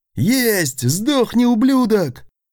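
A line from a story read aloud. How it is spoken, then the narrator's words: Gunner's joyful yell. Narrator (Russian): Радостно завопил второй номер носового ружья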